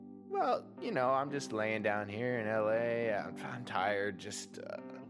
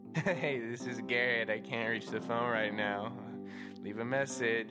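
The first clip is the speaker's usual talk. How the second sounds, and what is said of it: Laughing imitation of another's voicemail. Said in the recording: “my impression of your voicemail ... You're like laughing, like someone just told you a joke.”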